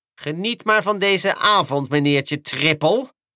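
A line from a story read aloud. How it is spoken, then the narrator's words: Hissed. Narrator (Dutch): siste Diesel 10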